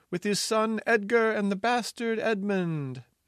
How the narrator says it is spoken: cried a sentry

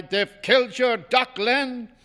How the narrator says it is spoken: I cried

